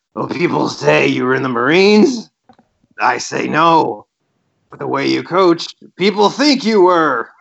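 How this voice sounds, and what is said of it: Attempted Bob Knight impression. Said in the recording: “I tried to do a Bob Knight voice. ... I'll work on my Bob Knight voice”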